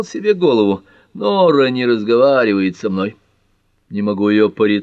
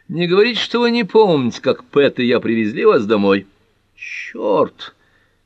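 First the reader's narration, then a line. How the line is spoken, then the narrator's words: Groaning. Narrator (Russian): простонал Джим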